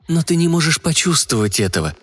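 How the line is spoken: Gentle objection. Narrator (Russian): мягко возразила

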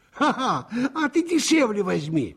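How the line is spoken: Laughing. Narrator (Russian): Опять засмеялась Наташка

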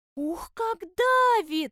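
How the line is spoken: Wailing cry. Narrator (Russian): завопила штопольная игла

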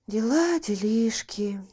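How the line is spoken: Drawl. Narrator (Russian): протянула Марго

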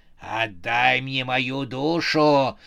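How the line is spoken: Snarling demoness. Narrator (Russian): зарычала повелительница ужаса

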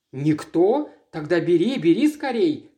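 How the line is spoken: Passionate exclamation. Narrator (Russian): страстно воскликнула Маргарет

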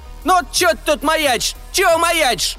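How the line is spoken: Shrill old woman's shout. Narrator (Russian): Визгливо крикнула самая ветхая из протестующих

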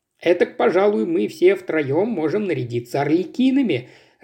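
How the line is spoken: Laughing. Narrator (Russian): рассмеялся Денман

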